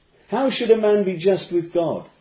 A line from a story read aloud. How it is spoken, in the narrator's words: cried out Job